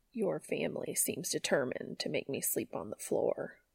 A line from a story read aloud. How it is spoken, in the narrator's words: Cass grumbled quietly